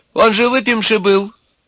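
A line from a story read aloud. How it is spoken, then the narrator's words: Arguing in womanlike voice. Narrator (Russian): заспорил с сухоньким некто курносый с женским голосом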